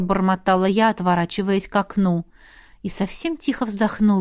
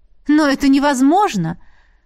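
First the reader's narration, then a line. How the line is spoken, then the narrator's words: Exclamation abruptly cut off. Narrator (Russian): воскликнула я и осеклась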